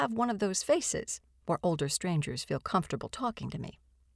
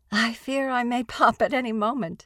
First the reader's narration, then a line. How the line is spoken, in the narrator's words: I agree